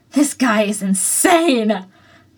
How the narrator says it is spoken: Kirishima cried, looking apprehensive with the smallish tinge of excited

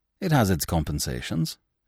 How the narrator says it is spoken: quoth he, in that curious cold tone of his that left one wondering whether he meant or not what he seemed to mean

